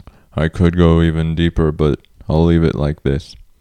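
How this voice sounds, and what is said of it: Deep announcer-style radio voice. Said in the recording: “bringing my great radio voice”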